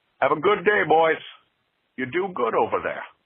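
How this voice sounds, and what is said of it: Imitates another person's voice. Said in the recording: “I would like more Sean Connery calls ... that accent was not going to hold up for 2.5 minutes”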